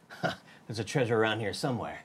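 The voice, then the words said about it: Attempted Nolan North as Nathan Drake. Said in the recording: “I'm just gonna do Nolan North's impersonation. ... I can't tell if you're trying. ... That's not good. ... That definitely seemed more like Metal what? Gear. ... That was perfect for Sully.”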